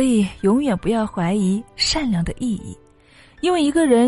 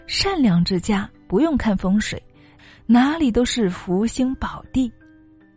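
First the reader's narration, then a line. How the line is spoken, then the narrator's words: Sighing in realization. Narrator (Chinese): 刘伯温这才知道自己是误会了，感叹道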